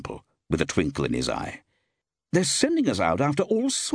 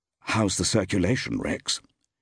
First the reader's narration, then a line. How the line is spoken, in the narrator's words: Steve said quietly